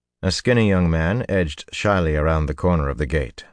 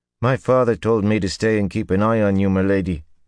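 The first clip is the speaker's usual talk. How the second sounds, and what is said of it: Very rough, hard-to-understand accent. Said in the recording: “in an accent so rough that Perrin could barely understand”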